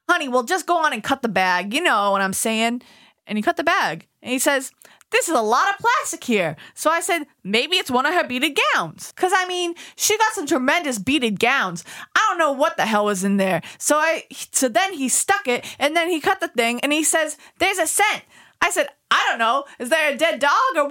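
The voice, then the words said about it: Put-on New York accent. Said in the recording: “read it in your New York accent”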